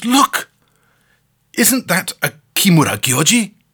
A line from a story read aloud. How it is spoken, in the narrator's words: the American exclaims